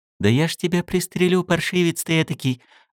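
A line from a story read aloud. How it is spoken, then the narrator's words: Said affectionately. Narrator (Russian): ласково сказал Гоша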